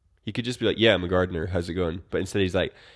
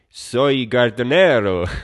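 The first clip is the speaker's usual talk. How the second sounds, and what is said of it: Put-on Mexican accent. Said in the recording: “pretends to be a Mexican gardener ... forced into putting on that accent.”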